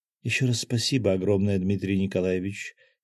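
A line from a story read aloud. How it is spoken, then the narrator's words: Deep sigh. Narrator (Russian): глубоко вздохнула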